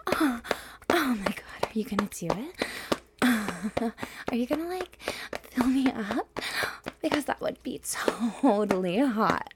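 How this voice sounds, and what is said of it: Ditzy Valley Girl voice. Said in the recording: “Valley Girl ... with a cute ditzy accent and a cute ditzy voice”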